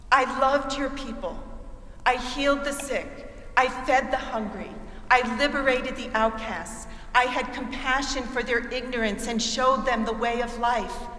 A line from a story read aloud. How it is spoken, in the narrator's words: cries out